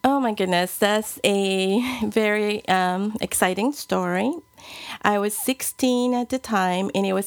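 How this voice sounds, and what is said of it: Noticeable foreign accent in English. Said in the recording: “when we listen to your voice, you have a beautiful accent”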